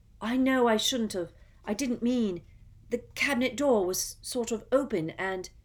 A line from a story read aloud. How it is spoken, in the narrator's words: Harry gasped